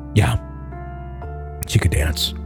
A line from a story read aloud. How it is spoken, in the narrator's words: Mark answered softly